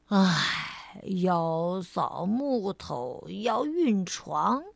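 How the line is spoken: Drowsy sigh. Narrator (Chinese): 懒惰先生迷迷糊糊的叹了口气

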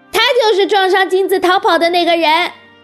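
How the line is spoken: Loud shout. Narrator (Chinese): 马小跳……大叫一声

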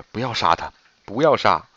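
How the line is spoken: Pleading. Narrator (Chinese): 高翠兰……哀求着

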